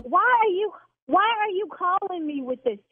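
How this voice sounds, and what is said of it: Yelling, agitated raised voice. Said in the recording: “See, now I'm yelling.”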